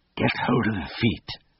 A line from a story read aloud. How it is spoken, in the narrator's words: I whispered to the Bamfords